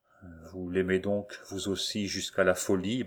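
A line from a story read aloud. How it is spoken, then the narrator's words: Sarcastic stammer. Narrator (French): balbutia Remy, dans un sarcasme qui crispait la lèvre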